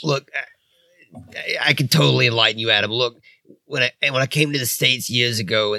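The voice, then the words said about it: Brooklyn accent. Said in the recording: “from Germany has an accent from Brooklyn”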